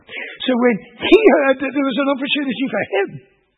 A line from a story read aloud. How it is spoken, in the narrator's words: he cried out